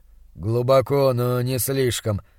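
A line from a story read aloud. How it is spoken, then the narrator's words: Grumbling. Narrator (Russian): пробурчал он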